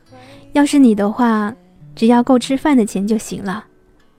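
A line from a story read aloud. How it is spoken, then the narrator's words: Sighing. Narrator (Chinese): 三毛叹了口气说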